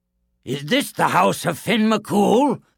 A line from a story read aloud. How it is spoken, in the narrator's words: thundered Cuchulainn